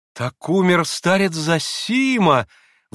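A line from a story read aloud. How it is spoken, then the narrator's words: Exclamation. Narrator (Russian): воскликнула Грушенька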